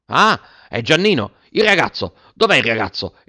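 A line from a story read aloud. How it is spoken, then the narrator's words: Frantic exclamation. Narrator (Italian): esclamò un tratto come fuori di sé il signor Clodoveo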